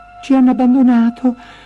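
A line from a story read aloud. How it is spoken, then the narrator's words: Sobbing. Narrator (Italian): singhiozzò Gretel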